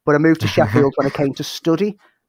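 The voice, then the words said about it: Liverpool accent. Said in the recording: “I'm originally from Liverpool. The accent might give a bit of it away.”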